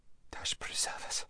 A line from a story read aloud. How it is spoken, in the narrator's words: whispered Lazareline